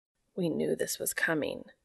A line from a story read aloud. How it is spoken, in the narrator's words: Cass whispers